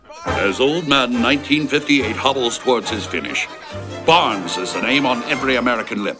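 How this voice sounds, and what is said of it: Old-time announcer voice, slightly transatlantic. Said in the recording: “it's more an announcer guy, but then it does have that transatlantic sound just a smidge”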